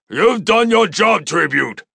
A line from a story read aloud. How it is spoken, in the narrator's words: the commander shouted